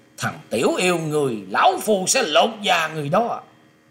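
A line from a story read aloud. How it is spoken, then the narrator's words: Laughing loudly. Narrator (Vietnamese): Hắc đạo dân cất tiếng cười to rồi nói rằng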